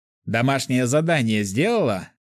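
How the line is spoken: Chuckling. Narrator (Russian): хохотнул я

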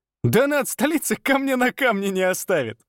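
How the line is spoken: Guffaw. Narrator (Russian): захохотал друг

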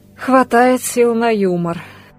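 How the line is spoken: Sighing. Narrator (Russian): вздохнула Ольга

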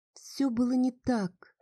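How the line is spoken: Soft, sad voice. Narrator (Russian): проговорила она таким мягким, почему-то печальным голосом

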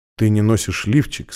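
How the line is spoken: Quiet. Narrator (Russian): сказал он тихо

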